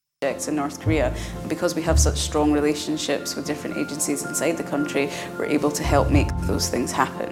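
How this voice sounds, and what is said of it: Woman with Scottish accent. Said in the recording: “That lady's got a Scottish accent”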